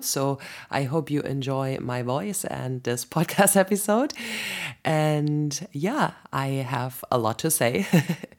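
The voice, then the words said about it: Raspy voice from a cold. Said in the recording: “I got a sexy, raspy, cold voice ... when I have a little bit of a sore throat.”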